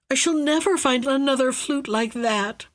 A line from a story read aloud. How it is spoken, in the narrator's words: moaned he